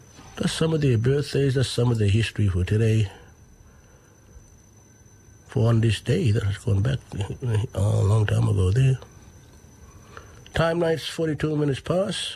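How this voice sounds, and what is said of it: Voice still recovering from illness. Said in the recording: “Sorry for my voice, but I'm still here, recovering slowly”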